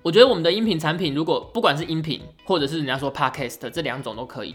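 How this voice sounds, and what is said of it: Taiwanese Mandarin accent. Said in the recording (Chinese): “因为我们的口音其实在整个华语区……是全部通用的，而且应该普遍都觉得台湾的口音还蛮好听的吧”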